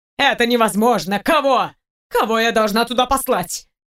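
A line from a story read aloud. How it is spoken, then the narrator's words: Loud shouting. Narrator (Russian): кричала на весь офис Екатерина Андреевна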